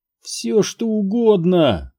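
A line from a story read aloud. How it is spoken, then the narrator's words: Moaned. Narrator (Russian): простонал Сайтримба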